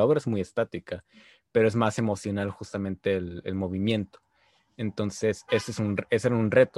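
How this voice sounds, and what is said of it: Usual voice. Nothing is said of it.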